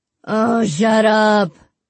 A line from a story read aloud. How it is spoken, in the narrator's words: Penny groaned